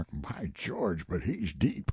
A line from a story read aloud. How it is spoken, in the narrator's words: Buzz of admiration, muttered remark